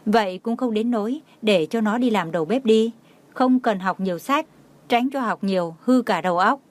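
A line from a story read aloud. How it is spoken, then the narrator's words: Laughing. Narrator (Vietnamese): Tô Lạc Hoành không nhìn được bật cười nói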